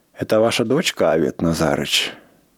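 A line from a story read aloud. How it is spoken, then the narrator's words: Old man, gentle question. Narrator (Russian): Мой дедушка, 80-летний старик, человек крутой, ласково спросил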